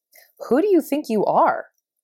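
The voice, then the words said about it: Snarky mocking voice. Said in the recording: “it would ask in a snarky voice.”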